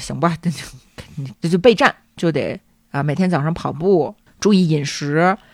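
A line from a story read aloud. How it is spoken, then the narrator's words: Resolute, through gritted teeth. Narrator (Chinese): 惠子咬咬牙说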